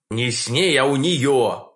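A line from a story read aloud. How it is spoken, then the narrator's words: Embarrassed growl. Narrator (Russian): Краснея до ушей, прорычал я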